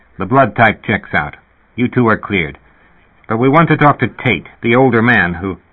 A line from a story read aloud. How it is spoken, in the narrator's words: he said irritably to Herb Asher